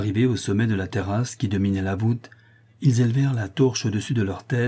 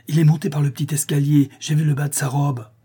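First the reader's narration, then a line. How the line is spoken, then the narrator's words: Excited exclamation. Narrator (French): s'écria-t-il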